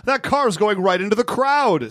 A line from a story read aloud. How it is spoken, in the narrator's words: Someone screams